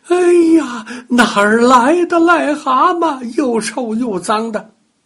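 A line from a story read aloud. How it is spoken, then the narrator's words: Shouting in disgust. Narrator (Chinese): 奶奶大叫起来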